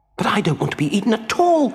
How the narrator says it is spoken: cried the puppet

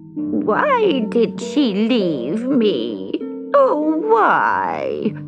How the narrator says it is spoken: she moaned

